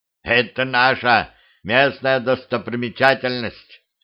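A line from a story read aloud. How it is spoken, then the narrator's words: Old man's snort. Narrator (Russian): хмыкнул дед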